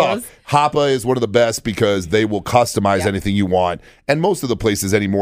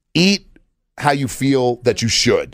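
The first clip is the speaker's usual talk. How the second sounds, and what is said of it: Serious tone of voice. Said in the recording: “my kind of serious voice”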